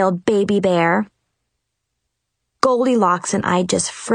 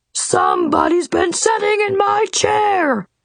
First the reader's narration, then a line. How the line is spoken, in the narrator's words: roared Papa Bear